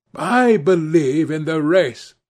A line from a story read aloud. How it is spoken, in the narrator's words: she cried